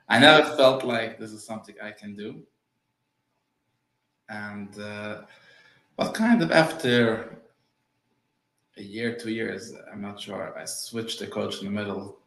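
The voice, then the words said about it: Non-native English accent. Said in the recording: “I have an accent. Yeah. English is not my first language.”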